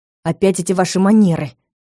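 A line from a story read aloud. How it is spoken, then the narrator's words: Hiss. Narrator (Russian): прошипел он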